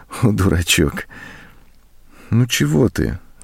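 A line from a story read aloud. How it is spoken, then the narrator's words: Affectionate, tender. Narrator (Russian): ласково сказала она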